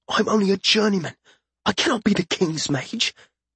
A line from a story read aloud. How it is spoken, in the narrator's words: Once they were outside, Wesson hissed